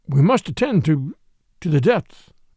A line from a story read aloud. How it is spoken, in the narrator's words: his voice escaped from articulation